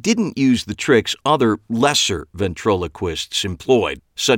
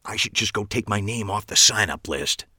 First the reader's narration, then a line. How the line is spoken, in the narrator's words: whispered